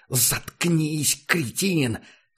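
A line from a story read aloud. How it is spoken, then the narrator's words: Furious hiss. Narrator (Russian): Взбешенно прошипел Курт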